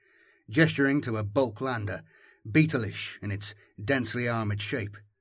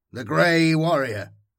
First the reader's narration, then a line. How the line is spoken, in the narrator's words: I replied, feeling my voice thicken in gratitude